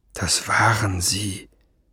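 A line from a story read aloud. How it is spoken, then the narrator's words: Murmur. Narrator (German): murmelte Ben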